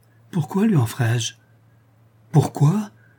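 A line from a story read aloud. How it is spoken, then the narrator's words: Exclaimed. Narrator (French): s'écria Schedoni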